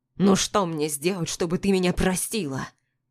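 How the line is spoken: Desperate growl. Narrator (Russian): Рычит, но не зло, а как-то отчаянно

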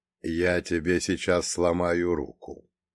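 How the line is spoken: Utterly calm, emotionless. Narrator (Russian): совершенно спокойно, без каких-либо эмоций, сообщил ирландцу Фреда

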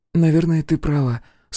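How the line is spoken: Agreeing, sighing. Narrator (Russian): согласилась Алиса и вздохнула

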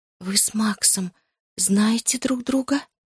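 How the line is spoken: Whisper. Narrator (Russian): прошептала я

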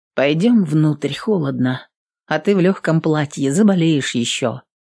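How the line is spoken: Quiet. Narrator (Russian): Воительница тихо сказала

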